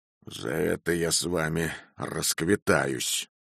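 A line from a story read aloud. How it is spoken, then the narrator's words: Muttered. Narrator (Russian): пробормотал Шрул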